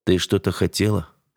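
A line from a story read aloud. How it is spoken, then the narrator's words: Cold question. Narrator (Russian): спросил я холодно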